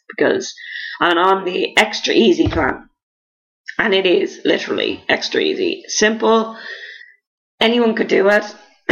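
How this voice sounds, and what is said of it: Hoarse, fading voice. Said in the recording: “Losing my voice here. ... I guess I'm doing too much talking and now my voice is completely going.”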